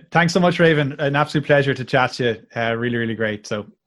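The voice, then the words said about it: Melodic Irish accent. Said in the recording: “I love the Irish accent. It's my favorite accent. ... the Irish one is so much more melodic. It's also harder to understand, but it's so much more melodic.”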